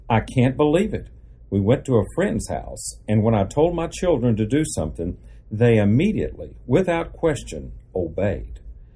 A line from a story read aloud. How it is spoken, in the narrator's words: they exclaimed